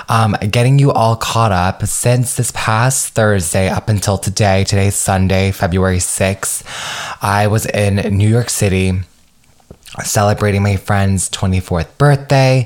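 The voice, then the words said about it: Hoarse, strained voice. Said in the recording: “I don't know if you can hear from my voice, but I am freaking shot, as in the sense of my throat is unwell. I was screaming all weekend”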